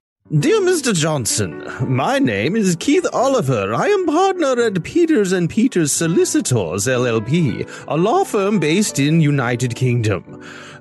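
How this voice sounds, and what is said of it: Exaggerated put-on British accent. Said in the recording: “I'm going to read this using a ridiculous British accent.”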